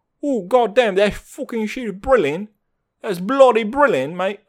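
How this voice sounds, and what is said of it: Put-on English accent. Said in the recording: “that's my best English accent I can come up with”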